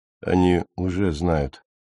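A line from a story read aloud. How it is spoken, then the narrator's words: Quiet but firm. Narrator (Russian): негромко, но твердо ответил Стоун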